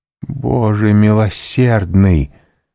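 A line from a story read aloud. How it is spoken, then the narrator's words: Exclamation. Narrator (Russian): воскликнула она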